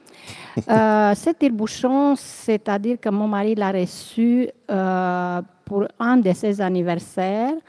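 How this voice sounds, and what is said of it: Speaks with a noticeable accent. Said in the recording (French): “avec mon accent”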